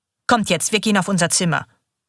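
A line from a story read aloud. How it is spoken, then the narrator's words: Hard voice. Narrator (German): sagt mit ihrer harten Stimme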